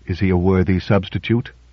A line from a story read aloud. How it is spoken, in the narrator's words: asked Drake softly